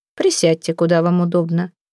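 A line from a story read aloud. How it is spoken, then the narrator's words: Calm woman. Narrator (Russian): спокойно сказала дама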